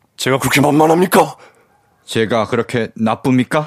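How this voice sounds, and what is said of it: Imitates another person's voice. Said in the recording (Korean): “성대모사 한 건데”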